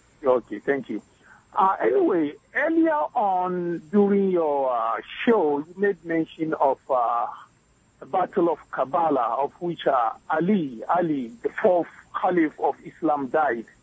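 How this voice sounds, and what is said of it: West African Ghanaian accent. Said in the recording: “I'm from West Africa, Ghana ... I'm talking about my accent.”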